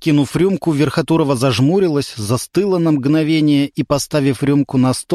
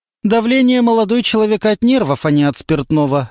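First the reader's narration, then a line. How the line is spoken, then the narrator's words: Sharp reply. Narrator (Russian): резко ответила Любовь Николаевна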